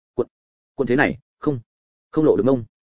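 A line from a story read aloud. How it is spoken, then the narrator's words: Embarrassed muffled stammer. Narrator (Vietnamese): con sâu Nghĩa nghe vậy thì hơi run lên một chút, mặt đỏ như gấc, nhưng vẫn lắp bắp nói vọng ra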